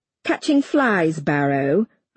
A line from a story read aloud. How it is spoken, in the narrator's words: I taunt